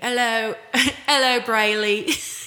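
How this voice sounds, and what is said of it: Attempted English accent, sounds Australian. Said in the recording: “I tried to do an English accent, and it turned right into like a redneck accent ... That's like Australian. I can't do it.”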